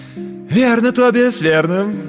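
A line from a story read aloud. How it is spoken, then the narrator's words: Exclaiming guest. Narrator (Russian): воскликнул другой гость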